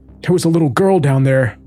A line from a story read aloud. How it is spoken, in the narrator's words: he said through his sobs